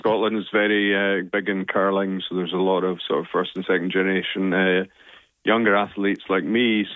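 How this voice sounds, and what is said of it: Scottish accent. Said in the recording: “as you can guess from my accent, now Scottish”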